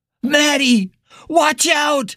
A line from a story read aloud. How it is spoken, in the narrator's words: Billy screamed uselessly